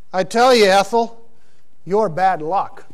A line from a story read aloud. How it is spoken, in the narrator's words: The man sighed and said